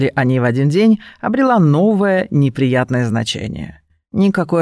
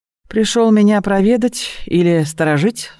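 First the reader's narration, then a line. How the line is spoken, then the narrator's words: Sighed. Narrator (Russian): вздохнула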